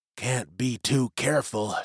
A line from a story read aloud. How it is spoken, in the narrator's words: she muttered